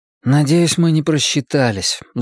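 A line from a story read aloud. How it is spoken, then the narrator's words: Young man sighing. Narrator (Russian): вздохнул парень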